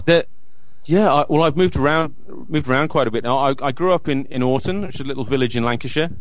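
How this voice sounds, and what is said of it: Mixed English and Australian accent. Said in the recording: “I'm not picking up an English accent with you. Where there's a hint of something else there as well. ... this weird sort of mixture of an accent”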